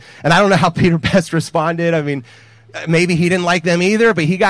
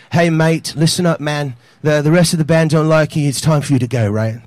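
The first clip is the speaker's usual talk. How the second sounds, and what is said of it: Put-on British accent. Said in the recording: “they're all British ... This is my British accent.”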